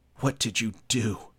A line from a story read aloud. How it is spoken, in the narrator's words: Rooney gasped